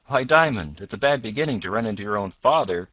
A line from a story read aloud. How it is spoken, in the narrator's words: cried the driver